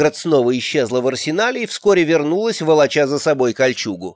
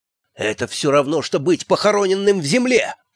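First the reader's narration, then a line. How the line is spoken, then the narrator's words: Hiss. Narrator (Russian): прошипел эльф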